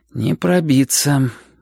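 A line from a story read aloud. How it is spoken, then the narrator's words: Sighing. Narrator (Russian): вздохнул Шурка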